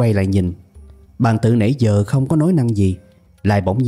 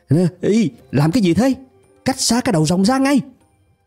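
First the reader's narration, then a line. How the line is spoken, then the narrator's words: Sudden loud shout. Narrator (Vietnamese): Trần Nhị Cẩu đột nhiên hét lớn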